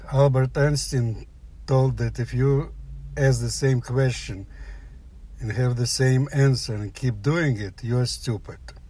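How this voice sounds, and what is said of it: Slight Russian accent. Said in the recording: “I have a slight accent ... you maybe hear that I have a Russian”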